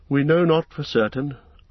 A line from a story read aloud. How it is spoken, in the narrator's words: answered Elrond sadly